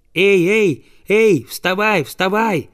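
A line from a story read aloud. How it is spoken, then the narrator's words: Boy shouting. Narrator (Russian): закричал мальчик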